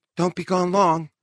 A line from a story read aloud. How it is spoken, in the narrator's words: Miss Smith called anxiously after him